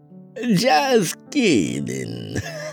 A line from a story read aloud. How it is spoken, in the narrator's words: Madam Ona said with a hearty laugh